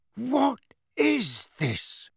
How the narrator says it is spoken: Uncle Vernon said hoarsely

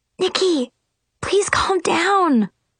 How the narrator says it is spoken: Chloe pleaded

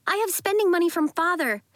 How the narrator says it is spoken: she cried

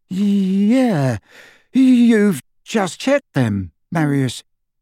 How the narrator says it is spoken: his companion, who said in a slightly dazed voice

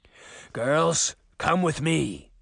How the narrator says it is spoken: growled

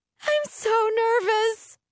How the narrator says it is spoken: Jewel shrieks

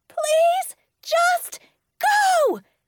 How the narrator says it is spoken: I yelled again

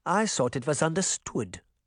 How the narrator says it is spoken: Granny Relda said calmly

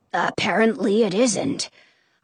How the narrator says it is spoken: Arnaldo murmurs

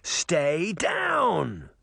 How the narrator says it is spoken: she shouted, unable to hear her own words

